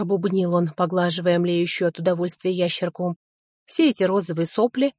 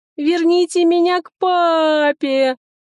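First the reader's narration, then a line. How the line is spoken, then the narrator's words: Little girl screaming. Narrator (Russian): закричала несчастная девчушка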